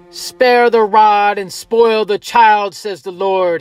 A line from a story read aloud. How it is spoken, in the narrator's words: shouted